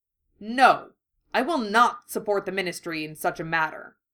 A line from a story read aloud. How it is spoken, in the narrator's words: Harry snarled